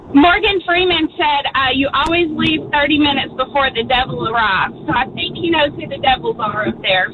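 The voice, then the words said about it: Speaks with a noticeable accent. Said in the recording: “I love your little accent”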